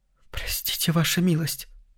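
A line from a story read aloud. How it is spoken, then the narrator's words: Whisper. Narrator (Russian): прошептала она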